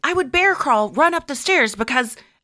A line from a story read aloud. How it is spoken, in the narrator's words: I'd scream